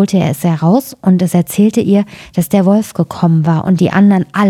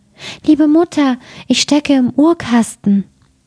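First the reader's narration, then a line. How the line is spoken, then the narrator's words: Thin small voice calling. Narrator (German): rief eine feine Stimme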